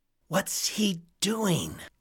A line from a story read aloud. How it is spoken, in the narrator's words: Reggie whispered